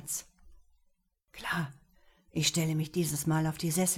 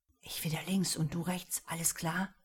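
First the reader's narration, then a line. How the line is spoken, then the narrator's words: Quiet. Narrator (German): sagte Theo leise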